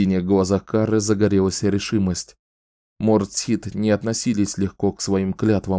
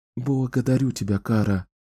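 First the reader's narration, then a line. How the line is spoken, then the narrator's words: Whisper. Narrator (Russian): прошептала Кэлен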